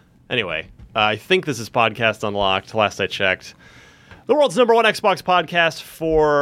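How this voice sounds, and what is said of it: Usual voice. Nothing is said of it.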